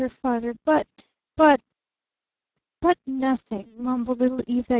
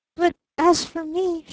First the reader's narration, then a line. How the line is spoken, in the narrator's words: she gasped